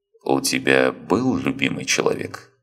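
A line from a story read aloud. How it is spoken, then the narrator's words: Calm man asking. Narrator (Russian): спокойно поинтересовался мужчина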